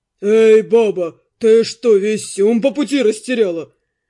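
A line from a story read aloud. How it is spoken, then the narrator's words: Guard shouting rudely. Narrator (Russian): грубо крикнул со своего места охранник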